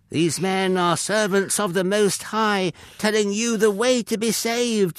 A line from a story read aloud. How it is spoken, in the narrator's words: shouted repeatedly